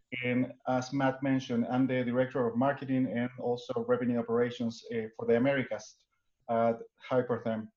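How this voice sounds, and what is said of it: Non-native English accent. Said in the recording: “I do have an accent.”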